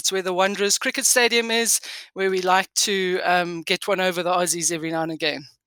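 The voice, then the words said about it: South African accent. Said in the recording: “I'm just picking up a bit of an accent there ... you're a very proud South African”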